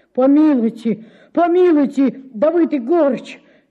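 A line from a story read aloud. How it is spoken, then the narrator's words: Babbling plea. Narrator (Russian): залепетал он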